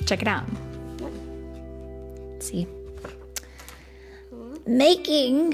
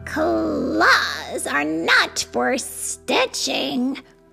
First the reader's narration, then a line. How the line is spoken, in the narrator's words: growled Geraldine